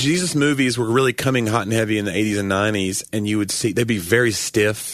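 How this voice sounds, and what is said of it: Usual voice. Nothing is said of it.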